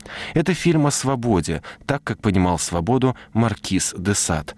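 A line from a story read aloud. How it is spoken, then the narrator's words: Plain. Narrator (Russian): говорит режиссер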